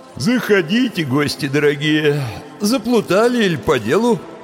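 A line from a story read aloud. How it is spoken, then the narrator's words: Sleepy grumbling. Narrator (Russian): сонно проворчал он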